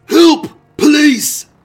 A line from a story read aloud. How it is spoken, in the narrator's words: Albert Stock, staggered into the street screaming